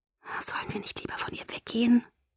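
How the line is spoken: Whispered. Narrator (German): flüsterte ich

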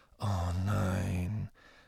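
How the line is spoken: Muttered. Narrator (German): murmelte Harry

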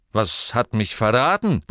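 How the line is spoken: Grumbling. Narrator (German): brummte er

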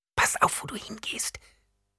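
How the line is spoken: Hissed. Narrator (German): zischte

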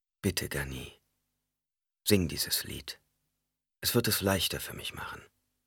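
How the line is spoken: Soft voice. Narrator (German): Mit weicher Stimme fügte hinzu

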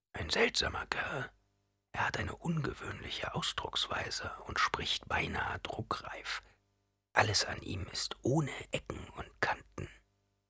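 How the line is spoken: Whispering in ear. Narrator (German): Halleck hatte in Pauls Ohr geflüstert

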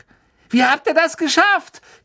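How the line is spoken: Shrieking. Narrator (German): kreischte Angelina Johnson

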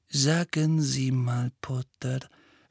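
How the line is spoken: Gentle question. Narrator (German): fragte sanft

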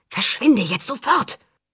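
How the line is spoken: Hissing. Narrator (German): über die Schulter zischte er

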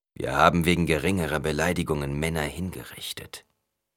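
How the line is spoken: Growled. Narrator (German): knurrte Stilgar

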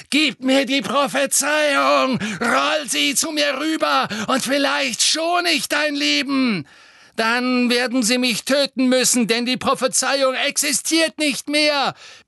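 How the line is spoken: Roaring. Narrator (German): brüllte Harry

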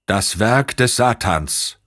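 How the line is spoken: Called out. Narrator (German): rief der Camerlengo

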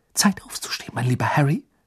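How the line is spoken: Whispered. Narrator (German): flüsterte sie

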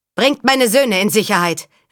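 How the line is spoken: Called over shoulder. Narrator (German): rief über die Schulter

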